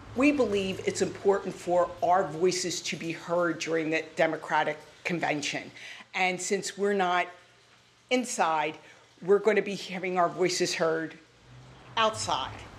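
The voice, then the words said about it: Classic Philadelphia accent. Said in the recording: “I love ... accent. That is a classic Philly accent”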